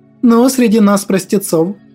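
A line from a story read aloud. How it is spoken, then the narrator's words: Snide smirking tone. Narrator (Russian): она ехидно усмехнулась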